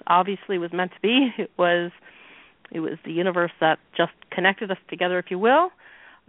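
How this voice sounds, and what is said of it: Canadian accent. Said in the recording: “I love your Canadian accent... it's so adorable... It's just really cute.”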